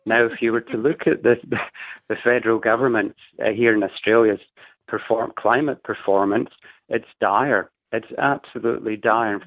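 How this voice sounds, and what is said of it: Scottish accent. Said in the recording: “you may have picked up I'm a Scot as an from the accent”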